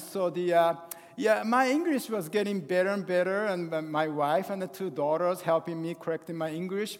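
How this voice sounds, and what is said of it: English with a French accent. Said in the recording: “you might hear some French accent”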